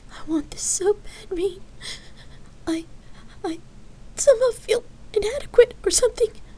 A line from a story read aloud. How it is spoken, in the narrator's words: she stammered through her sobs